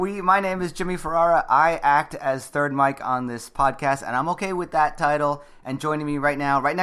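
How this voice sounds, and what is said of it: Usual voice. Nothing is said of it.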